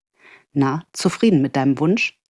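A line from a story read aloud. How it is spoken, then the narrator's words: Soft laugh. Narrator (German): Sie lachte leise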